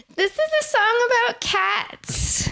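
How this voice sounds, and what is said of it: Childlike baby voice. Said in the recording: “I go into this little baby voice.”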